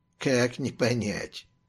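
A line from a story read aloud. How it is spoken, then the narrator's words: Wry grumble. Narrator (Russian): буркнул Вилли с кривой усмешкой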